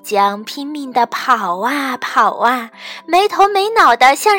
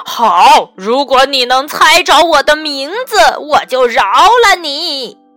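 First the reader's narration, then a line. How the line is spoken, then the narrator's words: Loud roaring ghost. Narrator (Chinese): 鬼 大声吼着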